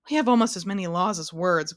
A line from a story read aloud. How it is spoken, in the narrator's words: grumbled the king